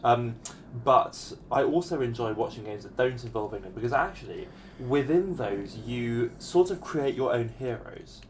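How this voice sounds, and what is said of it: English accent. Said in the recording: “I'm an England fan. You might have kind of told that from my language and my accent.”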